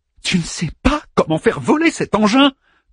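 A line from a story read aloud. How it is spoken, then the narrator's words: Shrill question. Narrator (French): demanda Ada d'une voix suraiguë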